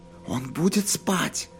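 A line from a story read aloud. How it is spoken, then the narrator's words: Whispered question. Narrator (Russian): шепотом спросил Джейк Келлогана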